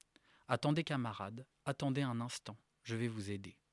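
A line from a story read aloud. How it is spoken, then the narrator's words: Plain. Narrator (French): dit Large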